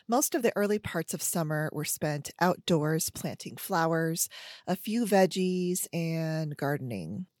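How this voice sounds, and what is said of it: Voice still affected by cough. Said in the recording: “trying to heal my lung inflammation and cough. You can sort of tell by my voice that, you know, it's still there, but slowly going away”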